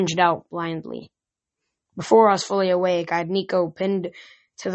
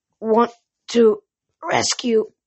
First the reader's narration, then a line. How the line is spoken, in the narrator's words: he choked